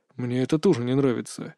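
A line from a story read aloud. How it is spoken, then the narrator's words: Muttered. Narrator (Russian): пробормотал Лэндаурн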